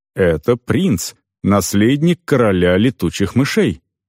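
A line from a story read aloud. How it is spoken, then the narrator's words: Solemn announcement. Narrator (Russian): торжественно объявил я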